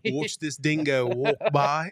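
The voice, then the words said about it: Put-on Australian accent, nature narration. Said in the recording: “I love when you do an Australian accent. ... That was pretty good, right? That was pretty solid.”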